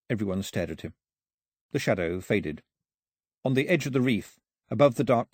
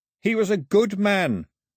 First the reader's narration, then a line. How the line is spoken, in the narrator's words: shouted to the sky